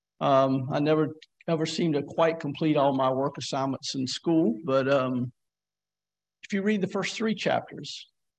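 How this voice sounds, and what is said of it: Southern accent, non-rhotic R's. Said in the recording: “I have a unique accent. ... where I come from is we tend not to pronounce the R's ... the R is kind of pronounced like an AW ... I grew up in the southern”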